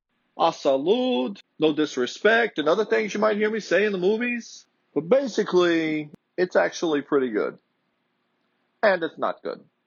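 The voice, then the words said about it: Put-on movie-style accent. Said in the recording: “I kind of lost my accent there for a minute. Some words are harder than others”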